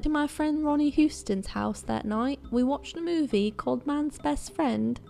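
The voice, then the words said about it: Poor put-on accent. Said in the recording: “how bad my accent is”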